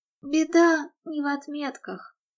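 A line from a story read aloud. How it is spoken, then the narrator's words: Sad, smiling. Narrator (Russian): грустно улыбнулась Мередит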